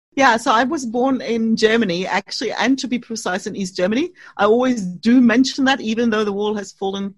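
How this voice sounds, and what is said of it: Foreign accent. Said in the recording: “there's an accent. I love people with accents.”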